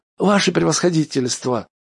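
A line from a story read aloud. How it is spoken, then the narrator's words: Gloomy. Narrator (Russian): Шипучин уныло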